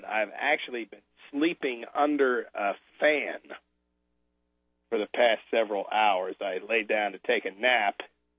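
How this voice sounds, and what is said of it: Slightly raw voice. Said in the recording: “my voice may not sound it ... if my voice sounds a little raw, that is a consequence of being under that fan”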